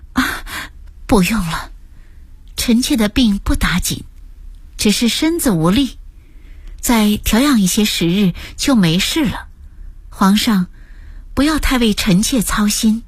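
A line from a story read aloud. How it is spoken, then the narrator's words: Breathless. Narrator (Chinese): 陈妃气喘吁吁地说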